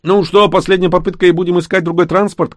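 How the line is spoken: Distant shout. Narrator (Russian): крикнул Рыжик из салона

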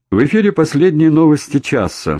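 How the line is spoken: Cheerful female voice, loudspeaker. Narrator (Russian): бодро отрапортовал динамик женским голосом

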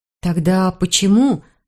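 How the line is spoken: Began speaking. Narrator (Russian): Начала я

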